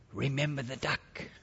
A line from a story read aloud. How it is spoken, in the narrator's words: she whispered in his ear